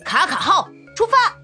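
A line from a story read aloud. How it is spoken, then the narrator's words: Shouting. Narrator (Chinese): 卡卡喊道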